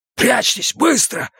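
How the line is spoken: Hissed. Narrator (Russian): зашипел он

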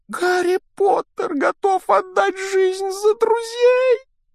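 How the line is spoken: Humble exclamation. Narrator (Russian): воскликнул домовик, сознавая собственное ничтожество

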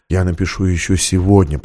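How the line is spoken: Whispered. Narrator (Russian): прошептал он

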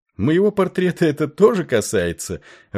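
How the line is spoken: Laughing. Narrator (Russian): рассмеялся Сикс

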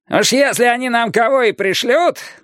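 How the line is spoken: Shout. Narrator (Russian): напоследок крикнул Каттер

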